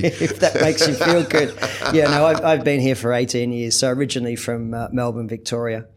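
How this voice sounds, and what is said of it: Australian accent, slight twang. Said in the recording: “I hear a bit of an Aussie twang there, so I presume you're Australian.”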